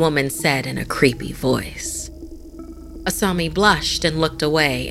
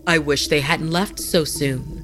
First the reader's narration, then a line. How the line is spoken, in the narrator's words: Haru said